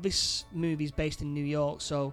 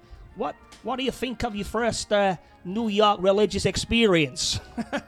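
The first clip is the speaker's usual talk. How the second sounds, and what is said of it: Put-on New York accent. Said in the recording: “forgive me accent, but I think it's better if you do it in a New York accent ... yeah, that's a proper New Yorker”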